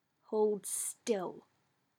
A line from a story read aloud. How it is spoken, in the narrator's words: Hawk growled